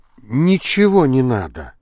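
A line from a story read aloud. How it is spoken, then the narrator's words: Grumbling mutter. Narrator (Russian): буркнул Лабрюйер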